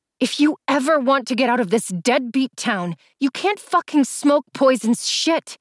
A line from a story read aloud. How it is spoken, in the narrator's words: said through clenched teeth, anger boiling inside of me